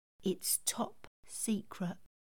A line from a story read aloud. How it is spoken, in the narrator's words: Adding in a proud whisper